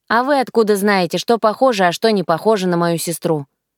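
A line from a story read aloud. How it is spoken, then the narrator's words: Scornful snort. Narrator (Russian): фыркнула я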